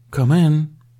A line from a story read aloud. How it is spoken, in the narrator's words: said, loudly enough for the incomer to hear